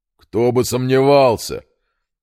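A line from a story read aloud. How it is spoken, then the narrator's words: Distant shout. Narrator (Russian): выкрикнул из кабины штабс-капитан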